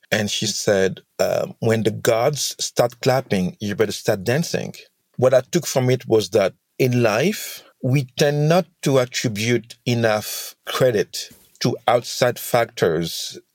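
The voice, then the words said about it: Senegalese accent. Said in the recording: “I'm from Senegal, hence the accent.”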